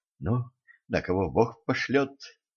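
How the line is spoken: Whisper. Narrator (Russian): он прошептал

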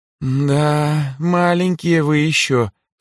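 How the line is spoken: Smiling. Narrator (Russian): с улыбкой покачала головой Лирейн

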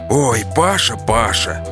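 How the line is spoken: Exhaled words. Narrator (Russian): выдохнул президент

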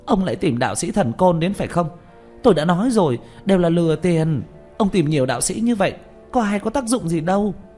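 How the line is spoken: Hissing shrilly. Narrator (Vietnamese): rít lên

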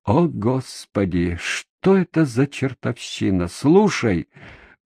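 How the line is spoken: Weary. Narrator (Russian): проговорил я устало

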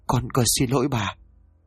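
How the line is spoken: Frightened stammering. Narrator (Vietnamese): tay run rẩy mồm lắp bắp nói

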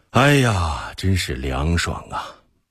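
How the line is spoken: Admiring exclamation. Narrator (Chinese): 忽必烈赞叹道

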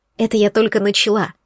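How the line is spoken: Snapping retort. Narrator (Russian): огрызнулась Есения

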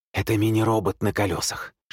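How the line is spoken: Whisper. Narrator (Russian): шепнул он

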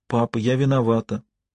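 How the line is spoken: Whisper. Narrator (Russian): Холли прошептала

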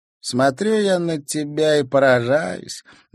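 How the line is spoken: Girl's good-natured laugh. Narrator (Russian): добродушно рассмеялась девчонка

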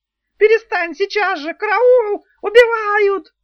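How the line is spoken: Panicked succubus shrieking. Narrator (Russian): завизжал суккуб в полной панике

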